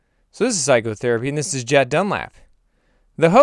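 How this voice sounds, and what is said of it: Usual voice. Nothing is said of it.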